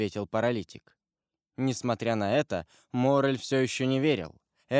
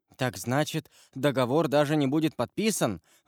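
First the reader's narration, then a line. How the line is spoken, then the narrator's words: Exclaiming. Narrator (Russian): воскликнул Морель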